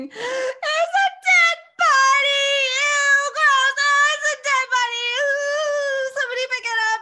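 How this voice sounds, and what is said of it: Screaming in alarm. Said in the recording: “I'm screaming ... I start screaming”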